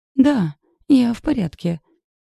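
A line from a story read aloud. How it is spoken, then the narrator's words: Hoarse lie. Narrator (Russian): соврала хрипло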